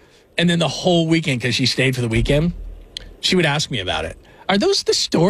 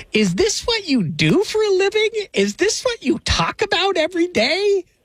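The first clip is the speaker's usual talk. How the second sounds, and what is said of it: Imitates his mother's voice. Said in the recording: “my best mom impersonation”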